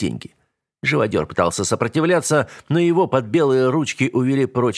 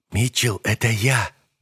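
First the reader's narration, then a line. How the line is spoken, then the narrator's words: Distant whisper. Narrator (Russian): донесся шепот Гоши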